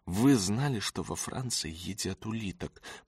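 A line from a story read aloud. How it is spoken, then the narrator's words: Boy, sighing. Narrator (Russian): Мальчик вздохнул и добавил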